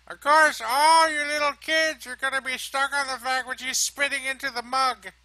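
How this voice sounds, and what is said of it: Put-on old lady voice. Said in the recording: “She didn't really talk like that, but I just thought that's my old lady voice ... That's the old lady voice? ... If she's a robot old lady?”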